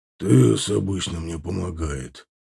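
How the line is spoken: Displeased grumble. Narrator (Russian): недовольно проворчал Аркар

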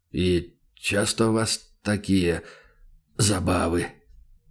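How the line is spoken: Hoarse, strained voice. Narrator (Russian): Голос Бармаглота звучал хрипло и натужно

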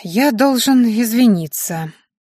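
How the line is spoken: Heavy sigh. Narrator (Russian): тяжело вздохнул менталист

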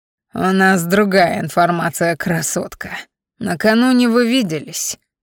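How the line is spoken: Growled right in face. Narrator (Russian): рычал мне прямо в лицо

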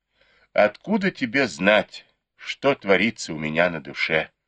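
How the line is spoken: Sighing. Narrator (Russian): вздохнула Сяо Хун

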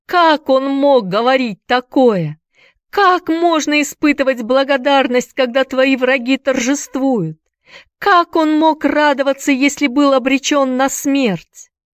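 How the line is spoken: Sobbing. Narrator (Russian): Рыдая, Энди

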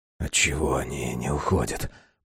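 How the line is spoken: Whispering. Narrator (Russian): прошептал Безил

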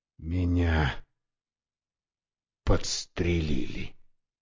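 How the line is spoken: Weak voice. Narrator (Russian): произнес слабым голосом

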